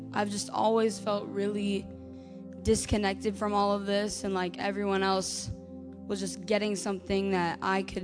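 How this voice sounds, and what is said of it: Hoarse, worn-out voice. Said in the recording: “my voice is still pretty gone from church camp, so hopefully you can understand me”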